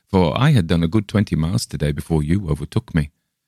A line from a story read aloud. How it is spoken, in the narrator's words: laughed